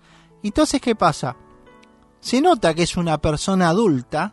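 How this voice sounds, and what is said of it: Usual voice. Nothing is said of it.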